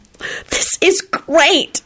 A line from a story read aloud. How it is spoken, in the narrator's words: Solange squealed